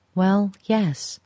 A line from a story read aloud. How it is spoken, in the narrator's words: she said